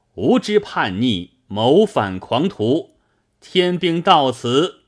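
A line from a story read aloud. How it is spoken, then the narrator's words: Stern loud shout. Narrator (Chinese): 林冲 厉声高叫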